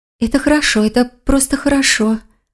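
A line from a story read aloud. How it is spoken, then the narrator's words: Whisper. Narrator (Russian): прошептала лиса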